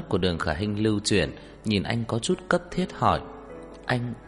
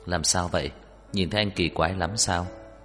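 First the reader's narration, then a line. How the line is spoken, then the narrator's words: Moved, tender question. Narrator (Vietnamese): xúc động dịu dàng hỏi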